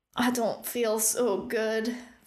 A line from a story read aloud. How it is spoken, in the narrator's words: Flint moaned